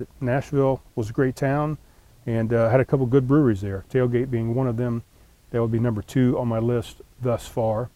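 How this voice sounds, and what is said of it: Strained, failing voice. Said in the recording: “My voice is kind of failing a little bit.”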